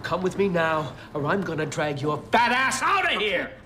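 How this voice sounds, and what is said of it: Angry shouting. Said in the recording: “stop yelling”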